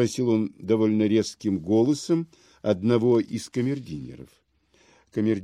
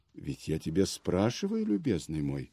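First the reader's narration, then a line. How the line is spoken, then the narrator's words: Calm. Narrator (Russian): спокойно продолжал Аркадий Павлович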